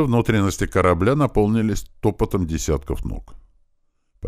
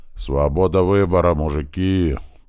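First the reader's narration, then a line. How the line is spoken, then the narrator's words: Deep bass. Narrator (Russian): пробасил большой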